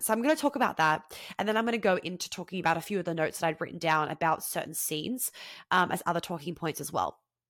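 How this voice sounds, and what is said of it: Congested voice from head cold. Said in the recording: “if you can't hear it in my voice ... I'm a bit congested right now. I got a bit of a head cold ... I got a sore throat for one day”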